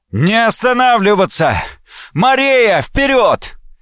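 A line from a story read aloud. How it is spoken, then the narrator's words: Officer shouting. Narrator (Russian): кто-то из офицеров, кажется, Рунольф Виниор, закричал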